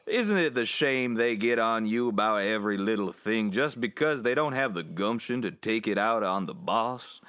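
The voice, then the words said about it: Slow southern drawl imitation. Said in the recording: “I love a southern drawl, though. ... But that is his accent. He has a southern drawl. Not quite that strong.”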